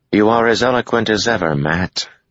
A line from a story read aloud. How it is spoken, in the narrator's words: Egwene said dryly